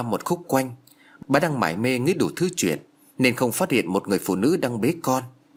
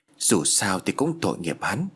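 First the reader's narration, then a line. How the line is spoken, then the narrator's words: Muttered. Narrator (Vietnamese): Anh lẩm bẩm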